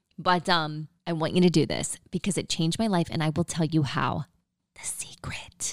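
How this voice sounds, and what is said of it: Usual voice. Nothing is said of it.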